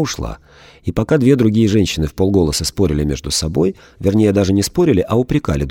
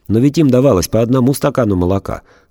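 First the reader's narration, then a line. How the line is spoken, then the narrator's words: Stern schoolteacher tone. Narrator (Russian): строго, тоном вредной учительницы сказала самая серьезная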